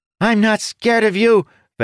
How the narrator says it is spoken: Bench cried

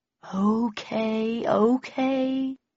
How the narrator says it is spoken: said Bowden in a soothing voice

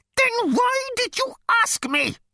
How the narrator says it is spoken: it screamed

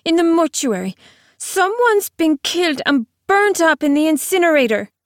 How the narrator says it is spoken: said Jean-Marie fiercely

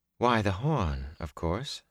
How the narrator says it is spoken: she said calmly

